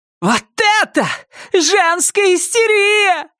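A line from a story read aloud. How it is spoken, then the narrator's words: Yelling. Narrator (Russian): орала Стефани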